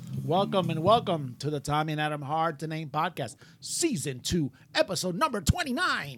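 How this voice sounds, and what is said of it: Energetic DJ-style announcer voice. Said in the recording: “the energetic introduction... I'm practicing on my DJ voice.”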